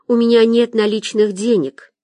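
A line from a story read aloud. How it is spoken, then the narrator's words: Girl's sigh. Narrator (Russian): вздохнула девочка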